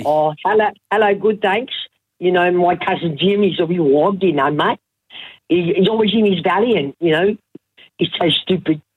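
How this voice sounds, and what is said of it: Comic character voice. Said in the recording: “I've got a few voices too. I've got Effie ... do Effie. Do Effie.”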